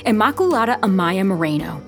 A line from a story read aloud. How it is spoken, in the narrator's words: the sister yelled